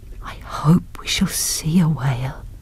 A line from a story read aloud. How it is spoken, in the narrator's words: whispered Nancy